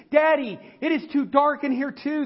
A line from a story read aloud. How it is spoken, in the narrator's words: His little girl cried out again